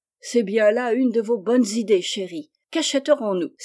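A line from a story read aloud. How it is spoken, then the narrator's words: Exclaiming. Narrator (French): s'écria Jo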